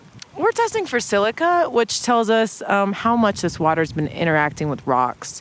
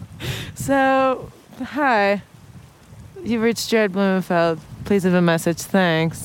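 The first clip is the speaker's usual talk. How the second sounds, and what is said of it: Imitates another person's voice. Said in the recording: “my Jared voice ... try your Jared voice”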